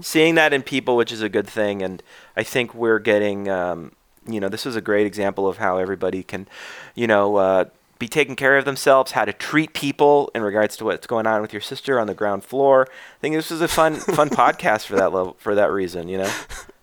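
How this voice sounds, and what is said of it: Smooth public-radio host voice. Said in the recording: “You got your podcast voice on. You sound like you're on NPR.”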